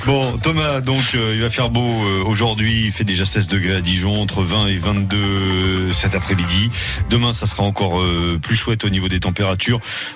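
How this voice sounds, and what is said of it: Put-on southern French accent. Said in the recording (French): “Vous avez bien fait de prendre votre accent euh, du sud.”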